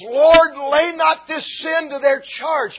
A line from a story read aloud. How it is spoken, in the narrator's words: before he breathes his final breath, Stephen hollers